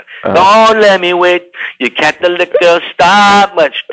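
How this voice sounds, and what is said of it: Singing in a Jamaican accent. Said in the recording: “I was even singing it with a Jamaican accent. ... why are you singing like that?”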